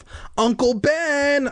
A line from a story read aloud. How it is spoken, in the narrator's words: I shouted